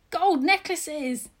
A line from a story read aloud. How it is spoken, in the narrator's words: shouted, bounding after me